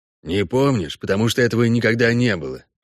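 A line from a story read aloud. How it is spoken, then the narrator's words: Grumbled. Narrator (Russian): проворчал Весемир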